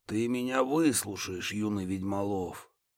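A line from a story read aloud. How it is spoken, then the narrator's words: Quiet and menacing. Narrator (Russian): Тихо и угрожающе заговорил Рафаэль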